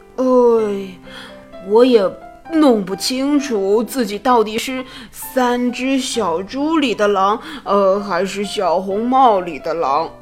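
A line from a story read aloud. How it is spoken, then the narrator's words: Mournful sigh. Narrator (Chinese): 大灰狼哭丧着脸叹息道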